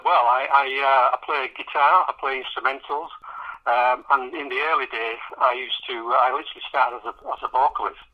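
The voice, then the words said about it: Yorkshire accent. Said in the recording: “I love your accent ... That's the Yorkshire accent. Pretty dialectical”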